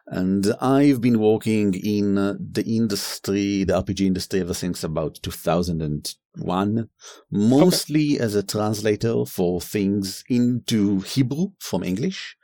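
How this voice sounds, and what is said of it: Somewhat harsh non-native accent. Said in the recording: “my accent is a bit harsher than Aviv's”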